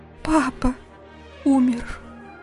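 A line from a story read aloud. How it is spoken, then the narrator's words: Tearful whisper, sobbing. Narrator (Russian): прошептала она, и что-то подсказало ему, что это ее первые слезы, что на похоронах она не плакала и разрыдалась лишь сейчас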